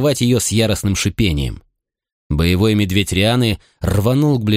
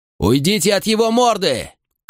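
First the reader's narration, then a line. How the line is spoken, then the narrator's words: Shout. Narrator (Russian): крикнул я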